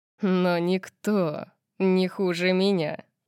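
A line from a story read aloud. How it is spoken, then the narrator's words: Wolfish growl. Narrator (Russian): сказал он волчьим рычанием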